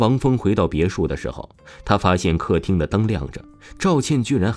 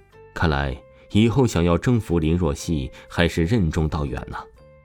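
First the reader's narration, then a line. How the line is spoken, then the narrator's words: Regretful sigh. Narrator (Chinese): 王峰遗憾叹息说道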